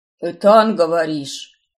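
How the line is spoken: Booming drone. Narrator (Russian): Прогудел он

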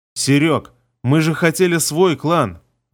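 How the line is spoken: Forced, strained. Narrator (Russian): Выдавил я из себя

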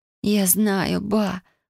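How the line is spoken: Impatient moan. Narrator (Russian): простонала я в нетерпении

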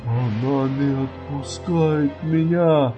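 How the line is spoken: Hoarse, barely audible drawl. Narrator (Russian): Севшим, почти неслышным голосом протянул он

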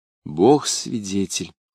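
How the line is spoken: Solemn. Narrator (Russian): торжественно ответила девушка

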